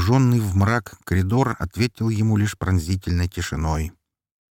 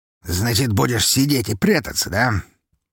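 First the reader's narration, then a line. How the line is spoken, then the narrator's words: Irritated muttering under breath. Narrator (Russian): Себе под нос пробормотал граф, раздраженный подобным игнорированием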